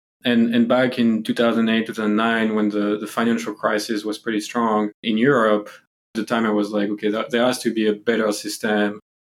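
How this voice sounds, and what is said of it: French accent in English. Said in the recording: “I'm actually from Europe, as you can hear from the accent. So, you know, I'm from France.”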